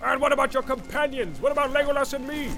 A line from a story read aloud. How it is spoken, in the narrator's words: cried Gimli, unable to contain himself longer